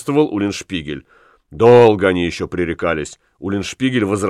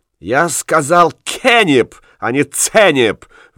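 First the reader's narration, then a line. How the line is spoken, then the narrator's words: Furious shout. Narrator (Russian): в бешенстве крикнул Ян де Цурсмуль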